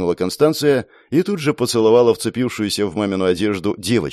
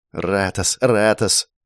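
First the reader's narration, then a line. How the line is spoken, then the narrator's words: Clipped muttering. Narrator (Russian): отрывисто бормотала она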